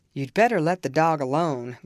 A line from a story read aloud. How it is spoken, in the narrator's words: growled Mr